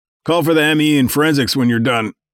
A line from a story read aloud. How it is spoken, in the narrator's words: yelled after him